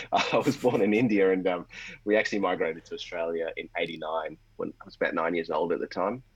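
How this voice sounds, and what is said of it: Australian accent. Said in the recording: “I wasn't born in Australia, despite the accent.”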